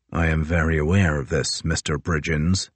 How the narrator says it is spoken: Crozier said coldly

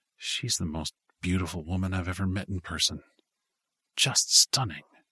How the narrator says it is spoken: said in a low voice

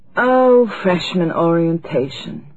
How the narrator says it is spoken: Maggie groaned

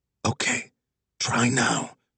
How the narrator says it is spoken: Nurse Sandy whispered to Wags

